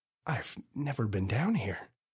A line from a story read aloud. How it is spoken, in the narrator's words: Daryl whispered